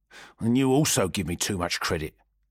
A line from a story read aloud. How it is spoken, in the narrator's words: muttered